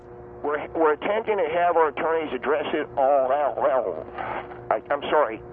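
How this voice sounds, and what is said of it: Slight Western Pennsylvania, Baltimore accent. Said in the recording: “You've got a little bit of a Western Pennsylvania and Baltimore accent.”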